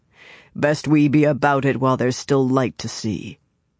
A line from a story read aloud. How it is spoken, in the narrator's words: Lan said grimly